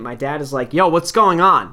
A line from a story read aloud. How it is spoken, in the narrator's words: Like yelling to the ump